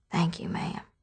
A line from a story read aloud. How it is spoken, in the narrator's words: she whispered